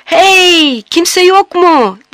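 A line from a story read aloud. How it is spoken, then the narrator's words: Yelling at top of lungs. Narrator (Turkish): diye avaz avaz bağırmaya başladı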